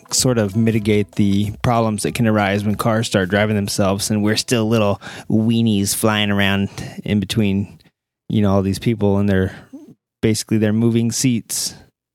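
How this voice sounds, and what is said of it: PBS broadcaster voice. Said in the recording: “in my best PBS broadcaster voice”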